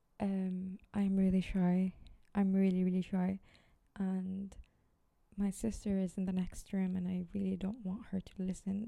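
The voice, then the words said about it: Low-pitched, quiet voice. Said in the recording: “my voice sounds really low pitched”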